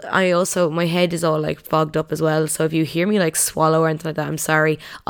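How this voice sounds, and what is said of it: Sounds ill. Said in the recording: “I'm so sorry if I sound really ill.”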